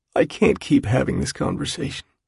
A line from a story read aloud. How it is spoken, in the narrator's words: he says at last, his voice scraped and hoarse